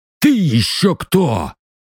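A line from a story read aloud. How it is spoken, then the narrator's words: Barked. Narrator (Russian): рявкнул захребетник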